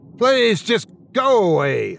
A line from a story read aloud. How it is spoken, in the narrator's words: shouted, yanking away from the creature